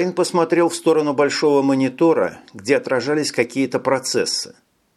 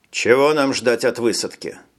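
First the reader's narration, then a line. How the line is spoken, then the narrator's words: Plain. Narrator (Russian): спросил он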